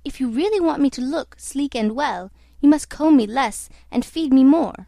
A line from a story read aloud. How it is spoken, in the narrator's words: cried to the groom